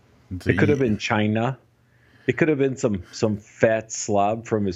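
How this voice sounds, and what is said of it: Usual voice. Nothing is said of it.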